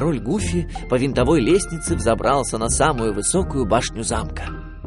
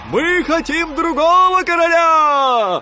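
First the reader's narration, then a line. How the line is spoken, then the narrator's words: Soldiers shouting. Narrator (Russian): кричали солдаты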